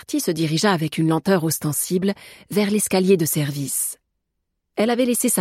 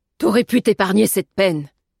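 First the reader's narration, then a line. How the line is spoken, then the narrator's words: Grumbling cook. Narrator (French): grommela la cuisinière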